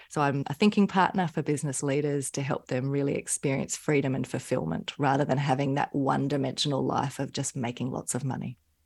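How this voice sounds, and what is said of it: Australian accent. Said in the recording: “I love speaking with people from Australia because I love the accent.”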